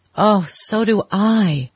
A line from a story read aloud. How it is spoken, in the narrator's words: she cried with a deep breath of relief